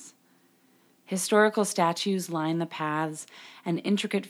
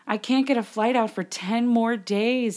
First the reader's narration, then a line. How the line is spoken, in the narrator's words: sobbed